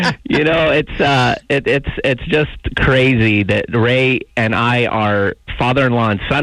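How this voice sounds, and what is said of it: Usual voice. Nothing is said of it.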